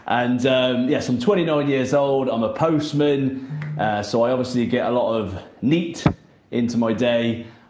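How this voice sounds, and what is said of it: Regional English accent. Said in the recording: “I heard you reference the accent. I don't realize I have an accent, but I think we do.”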